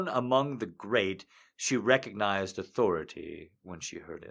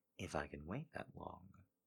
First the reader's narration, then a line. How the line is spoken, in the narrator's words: muttered rebelliously